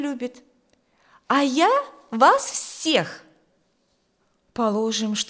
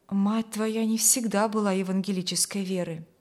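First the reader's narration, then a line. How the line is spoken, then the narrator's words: Gloomy. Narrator (Russian): произнес пан Каримский мрачно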